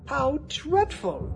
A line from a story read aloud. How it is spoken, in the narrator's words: They danced around excitedly and cried